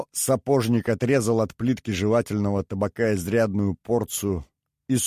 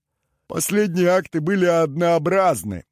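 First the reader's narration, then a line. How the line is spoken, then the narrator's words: Smirking grunt. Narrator (Russian): хмыкнул Шо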